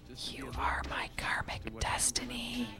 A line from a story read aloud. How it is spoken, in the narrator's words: he whispered to himself